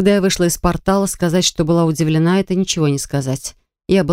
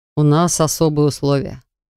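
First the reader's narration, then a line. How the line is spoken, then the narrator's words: Wry grunt. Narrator (Russian): хмыкнул он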